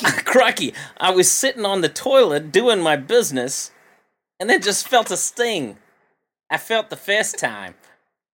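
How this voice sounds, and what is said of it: Attempted Australian accent. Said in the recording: “I don't know if I can do an Australian accent. This could be tough.”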